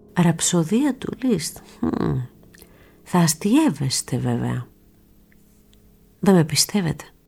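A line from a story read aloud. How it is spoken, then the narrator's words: Smiling. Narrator (Greek): Χαμογέλασε ο Λακέιτς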